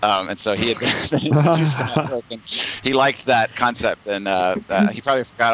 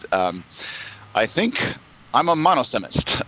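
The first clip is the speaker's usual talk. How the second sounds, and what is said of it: Poor imitation with British accent. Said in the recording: “your Goldengay impression. That that British accent was not acceptable.”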